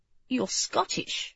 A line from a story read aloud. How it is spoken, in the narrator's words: he murmured